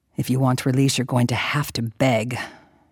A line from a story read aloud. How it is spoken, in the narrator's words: muttered into her damp hair